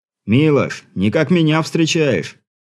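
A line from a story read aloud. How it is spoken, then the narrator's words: Shouted over the din. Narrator (Russian): крикнул Сергей, перекрывая царящий на причале гомон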